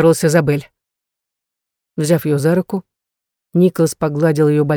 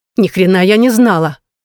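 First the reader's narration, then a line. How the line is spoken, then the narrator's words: Snapping retort. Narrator (Russian): огрызнулась она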